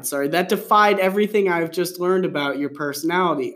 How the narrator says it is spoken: I said, laughing

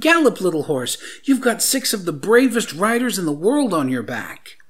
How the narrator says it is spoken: called out

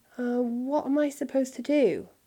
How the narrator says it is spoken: he stammered

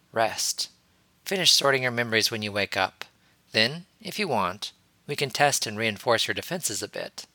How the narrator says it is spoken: Harry murmured quietly to Ahsoka

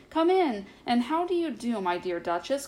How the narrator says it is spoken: cried Ribby

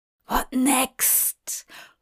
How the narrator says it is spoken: Hop hissed at her

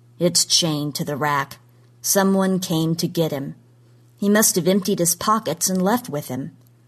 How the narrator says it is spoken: said flatly

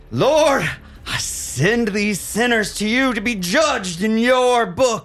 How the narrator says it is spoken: He begins to shout up to God as he says

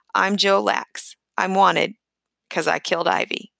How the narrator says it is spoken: calmly said

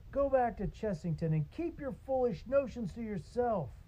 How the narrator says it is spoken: another shouted

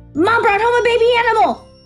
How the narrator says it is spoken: Bat yelled in a rush, trying to be the one to tell Janie

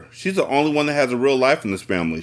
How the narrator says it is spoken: she cried, sniffing more rapidly

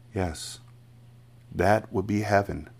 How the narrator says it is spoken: Miss Honey said softly

